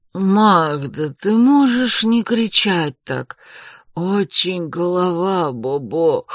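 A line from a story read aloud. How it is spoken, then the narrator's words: Hoarse wheeze. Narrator (Russian): Прохрипел мэр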